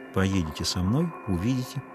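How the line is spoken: Quiet. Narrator (Russian): тихо сказала Веда

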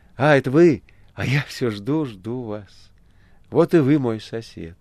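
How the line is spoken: Joyful. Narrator (Russian): сказал радостно

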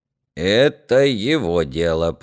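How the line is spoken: Creaky voice. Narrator (Russian): проскрипел Ерема

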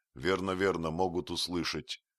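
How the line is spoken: Rapid whisper. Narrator (Russian): зашептал Остап быстро

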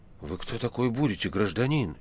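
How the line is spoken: Frightened question. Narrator (Russian): испуганно спросил Никанор Иванович

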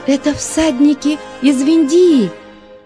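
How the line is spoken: Excited shout, young woman. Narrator (Russian): взволнованно закричала девушка

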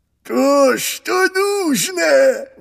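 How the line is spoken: Exclaimed, ancient dodo. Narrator (Russian): воскликнул древний дронт

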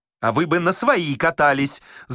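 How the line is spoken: Heated shouting. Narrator (Russian): запальчиво кричал шофер

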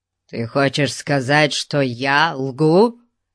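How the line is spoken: Stranger's growl. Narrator (Russian): зарычал незнакомец

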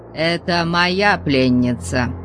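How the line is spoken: Menacing warning. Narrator (Russian): Грозным голосом Конан предупредил

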